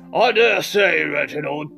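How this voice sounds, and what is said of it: Put-on old-fashioned British accent. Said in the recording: “a little bit of a British accent ... talking with this kind of voice”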